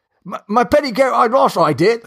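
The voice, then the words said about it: Put-on Cockney accent. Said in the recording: “Then there's like the Cockney accent, which is just off the rails. ... So Cockney sound like Yoda.”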